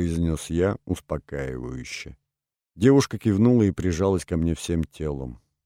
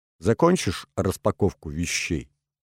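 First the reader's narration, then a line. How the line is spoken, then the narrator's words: Plain. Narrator (Russian): спросил я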